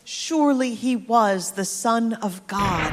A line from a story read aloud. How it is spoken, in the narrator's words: the centurion and those guarding Jesus were terrified and exclaimed